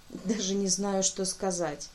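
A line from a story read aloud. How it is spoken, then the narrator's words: Mumbled. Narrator (Russian): пробормотала я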